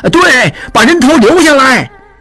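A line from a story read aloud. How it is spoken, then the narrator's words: Rowdy clamoring crowd. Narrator (Chinese): 长顺等人也嚷嚷起来，起哄着说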